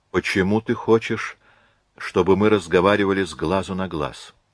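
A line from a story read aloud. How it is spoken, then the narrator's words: Soft question. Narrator (Russian): спросил он мягко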